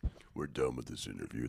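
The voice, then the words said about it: Very deep, low gravelly voice. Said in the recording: “Now do it in your lowest voice... He's doing some vocal fry... You sounded like a motorcycle driver in a way.”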